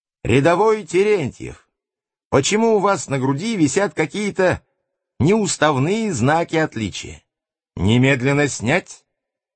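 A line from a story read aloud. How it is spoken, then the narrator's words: Commander shouting order. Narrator (Russian): командир отделения, младший сержант Нечипаренко, заметив крестик, закричал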